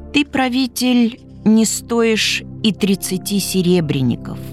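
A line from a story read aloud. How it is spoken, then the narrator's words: Old man, quiet humble voice. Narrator (Russian): тихим, смиренным голосом молвил один мудрый старец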